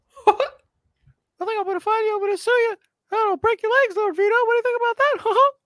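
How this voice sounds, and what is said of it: Mickey Mouse cartoon voice impression. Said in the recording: “do your best Mickey Mouse impressions ... doing a Mickey impression”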